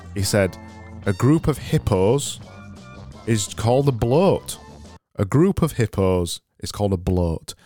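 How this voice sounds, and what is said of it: Yorkshire accent. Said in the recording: “it sounds lovely in my accent ... Yorkshire”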